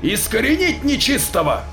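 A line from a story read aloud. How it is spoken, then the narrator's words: Harsh bark. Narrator (Russian): рявкнул кто-то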